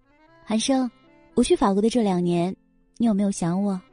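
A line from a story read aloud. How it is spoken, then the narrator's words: Sweet tender voice. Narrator (Chinese): 这声音娇嫩的，能掐出水来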